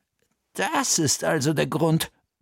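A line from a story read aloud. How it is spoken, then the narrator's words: Murmuring. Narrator (German): murmelte Bertha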